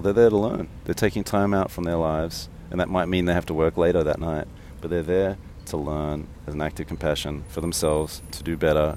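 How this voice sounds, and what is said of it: Monotone, mumbling Australian accent. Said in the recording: “listen to my voice. It's monotone. I mumble a bit. I have an Australian accent.”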